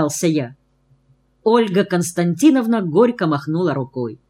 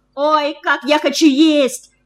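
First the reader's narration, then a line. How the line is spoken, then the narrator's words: Shouted from afar. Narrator (Russian): Закричала еще из передней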